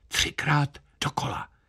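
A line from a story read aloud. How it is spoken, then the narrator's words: Whispered. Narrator (Czech): Kapelník šeptl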